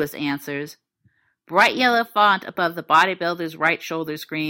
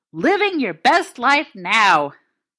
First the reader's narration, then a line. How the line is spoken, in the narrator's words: Lewis snorts